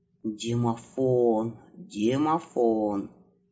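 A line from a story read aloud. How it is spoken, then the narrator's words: Puzzled muttering. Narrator (Russian): забормотал Иванушка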